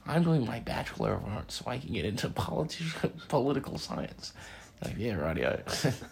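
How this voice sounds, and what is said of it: Nerdy put-on character voice. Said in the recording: “What was that accent? ... A dweeb. Yeah. A nerd burger”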